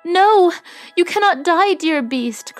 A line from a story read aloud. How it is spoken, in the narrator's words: cried Beauty